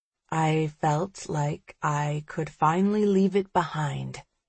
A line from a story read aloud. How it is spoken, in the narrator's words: Priya says quietly